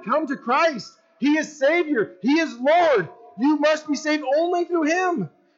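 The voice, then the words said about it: Excited loud yelling. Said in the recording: “I'm yelling. I'm so excited right now... I'm yelling so loud it's bouncing off the back wall back at me. I'm like yelling at myself.”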